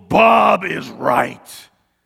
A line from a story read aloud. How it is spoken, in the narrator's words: a voice from heaven rumbles